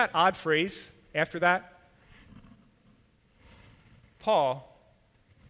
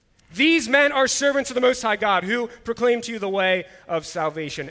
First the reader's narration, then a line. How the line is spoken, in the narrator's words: this girl ... crying out, or you might picture screaming and yelling